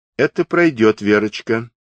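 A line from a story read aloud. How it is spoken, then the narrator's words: Stern yet proper. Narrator (Russian): строго, но чинно сказала Марья Алексеевна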